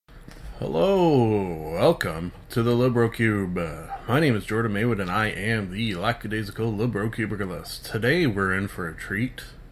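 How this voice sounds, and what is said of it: Deep early-morning voice. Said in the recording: “you can perhaps hear, my voice is all deep and sexy and stuff... That is because it is 6 o'clock in the morning.”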